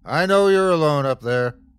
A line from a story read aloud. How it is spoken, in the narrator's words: the bear bellowed